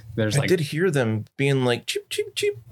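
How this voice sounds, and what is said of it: Bad imitation of rat-creature speech. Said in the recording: “I shouldn't try to talk like them ... Your accent is atrocious.”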